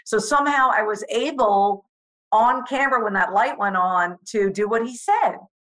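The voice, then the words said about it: New York accent. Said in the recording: “I couldn't escape the New York accent ... I'm still going to have the accent. I'm still going to talk like this”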